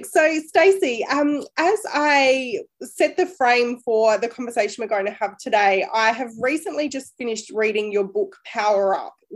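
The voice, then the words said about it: Voice sounds a little funny. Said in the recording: “my voice sounds a little funny, it's because I'm currently recovering from COVID”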